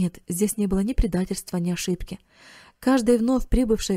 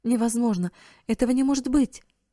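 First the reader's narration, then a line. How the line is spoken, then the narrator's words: Exclamation. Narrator (Russian): воскликнула миссис Хоуп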